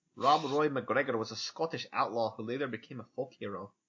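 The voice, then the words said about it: Decent put-on Scottish accent. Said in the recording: “That wasn't a bad Scottish accent either. ... Yeah, that was great. ... I was good for one sentence.”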